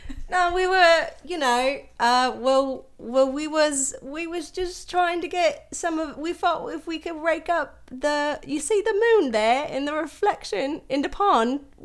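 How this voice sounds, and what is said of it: Put-on old English countryside accent. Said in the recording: “old English person accent ... accent corner”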